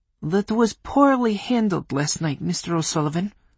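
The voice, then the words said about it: Polish accent, scolding tone. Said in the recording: “Reamed, even, in a Polish accent.”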